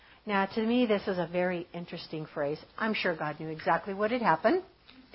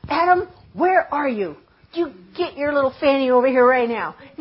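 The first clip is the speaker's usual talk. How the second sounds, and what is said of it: Stern scolding voice. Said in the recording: “in a stern voice?”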